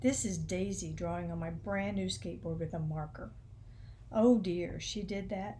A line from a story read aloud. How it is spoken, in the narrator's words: Grandfather sighed